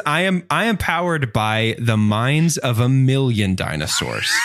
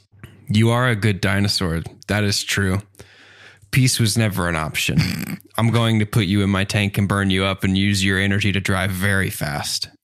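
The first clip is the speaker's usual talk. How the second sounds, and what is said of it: Very deep, scary voice. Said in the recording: “in a very deep and scary voice”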